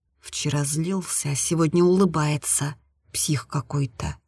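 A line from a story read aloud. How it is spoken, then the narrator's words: Whisper. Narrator (Russian): прошептала Аня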